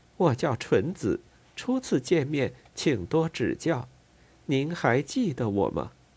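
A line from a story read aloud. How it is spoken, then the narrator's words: Soft, sweet female voice. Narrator (Chinese): 这个女人的声音细小悦耳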